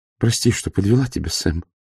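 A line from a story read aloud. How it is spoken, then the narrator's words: Female whisper. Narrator (Russian): прошептала его жена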